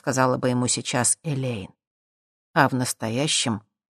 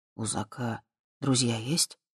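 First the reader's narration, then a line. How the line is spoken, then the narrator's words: Quiet question. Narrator (Russian): тихо спросил Боб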